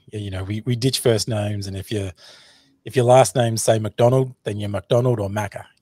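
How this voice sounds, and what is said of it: Australian accent. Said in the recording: “you can clearly hear my Australian accent”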